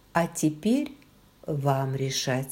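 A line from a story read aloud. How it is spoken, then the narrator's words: Calm. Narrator (Russian): спокойно произнесла Клэр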